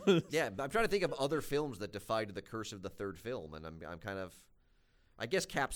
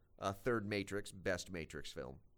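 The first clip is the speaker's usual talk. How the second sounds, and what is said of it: Sarcastic delivery. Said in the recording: “I was being sarcastic.”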